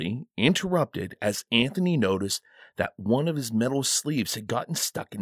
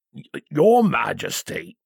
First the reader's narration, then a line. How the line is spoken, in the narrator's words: he grunted as he tugged and pushed his immobile arm